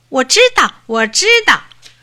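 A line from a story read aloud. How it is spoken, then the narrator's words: Eager shouting. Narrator (Chinese): 小兔子 嚷起来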